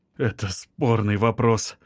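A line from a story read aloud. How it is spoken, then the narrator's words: Tired reply. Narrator (Russian): устало ответил Павлов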